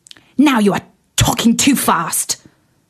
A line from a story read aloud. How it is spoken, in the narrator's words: spluttered the fire